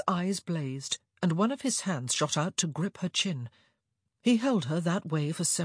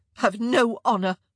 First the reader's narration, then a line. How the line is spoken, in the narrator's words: she nearly spat out